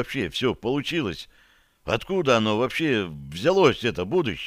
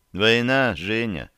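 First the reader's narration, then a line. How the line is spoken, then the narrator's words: Sigh. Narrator (Russian): вздохнул Поликарпов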